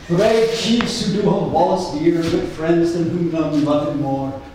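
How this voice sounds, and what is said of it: New Jersey accent. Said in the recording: “Scottish dialect read in a New Jersey accent”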